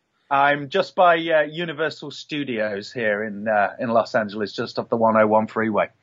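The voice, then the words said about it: English Nottingham accent. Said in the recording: “that accent's not local to Los Angeles, is it? ... No, it's not. No, I'm from Nottingham originally.”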